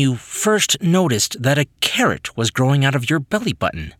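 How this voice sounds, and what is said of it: Usual voice. Nothing is said of it.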